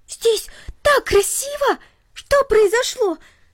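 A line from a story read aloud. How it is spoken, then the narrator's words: Delighted girl exclaiming. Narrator (Russian): воскликнула в восторге девочка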